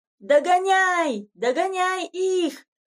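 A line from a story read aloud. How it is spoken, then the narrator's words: Boys shouting from behind. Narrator (Russian): кричали сзади мальчишки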